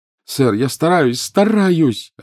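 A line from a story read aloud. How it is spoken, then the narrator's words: Desperate cry. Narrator (Russian): отчаянно вскрикнул Гарри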